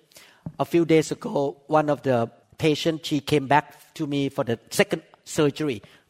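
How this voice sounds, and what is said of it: Speaks with a strong accent. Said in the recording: “he could not understand me of my accent”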